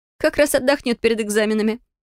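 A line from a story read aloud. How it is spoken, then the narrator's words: Chuckling. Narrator (Russian): хохотнула Фелия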